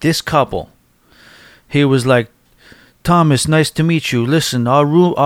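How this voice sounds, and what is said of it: Usual voice. Nothing is said of it.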